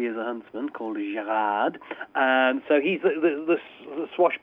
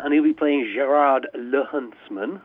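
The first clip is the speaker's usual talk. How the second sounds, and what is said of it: Mock French accent on name. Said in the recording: “That's my French accent there.”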